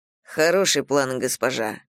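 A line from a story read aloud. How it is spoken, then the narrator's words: Calm, unsurprised. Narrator (Russian): спокойно сказал он, как будто моя жестокость его вовсе не удивила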